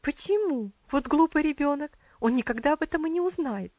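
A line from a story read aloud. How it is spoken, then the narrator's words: Quick exclamation. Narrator (Russian): быстро воскликнула ее тетя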